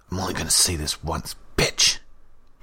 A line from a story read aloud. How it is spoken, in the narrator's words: he growled